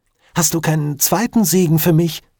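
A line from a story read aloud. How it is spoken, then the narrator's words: Pleading. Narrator (German): flehte er seinen Vater an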